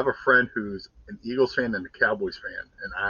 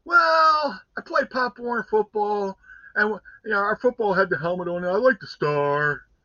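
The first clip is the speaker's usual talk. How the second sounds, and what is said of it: Imitates another person's voice. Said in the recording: “here's my imitation of him”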